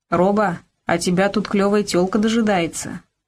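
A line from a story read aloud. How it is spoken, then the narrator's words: Plain. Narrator (Russian): сказал Карамор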